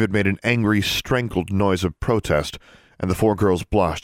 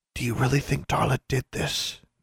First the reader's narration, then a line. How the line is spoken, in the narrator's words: Anna whispered